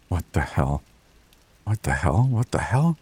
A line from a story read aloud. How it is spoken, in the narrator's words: whispered